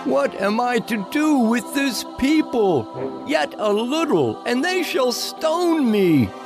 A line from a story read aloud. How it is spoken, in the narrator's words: Moshe cried out to Yahuwah, saying